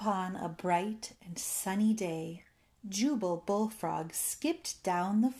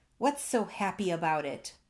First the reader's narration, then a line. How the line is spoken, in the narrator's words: Gertie snapped